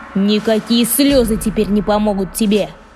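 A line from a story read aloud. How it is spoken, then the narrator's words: Menacing. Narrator (Russian): грозно сказал Синяя Борода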